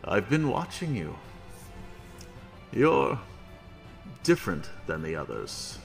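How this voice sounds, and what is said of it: Deep character voice. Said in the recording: “a deep voice”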